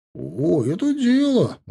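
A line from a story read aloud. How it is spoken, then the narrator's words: Exclamation. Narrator (Russian): воскликнул он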